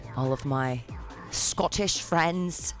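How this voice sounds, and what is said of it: Poor put-on Scottish accent. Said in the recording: “I'm sorry, I have terrible accents.”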